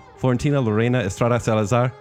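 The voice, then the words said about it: Put-on accent saying a name. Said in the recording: “Why did you do an accent?”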